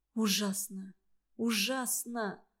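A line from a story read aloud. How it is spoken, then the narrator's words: Whisper. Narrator (Russian): прошептала Варя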